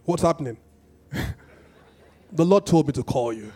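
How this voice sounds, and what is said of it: Put-on deep voice. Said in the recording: “My deep voice,”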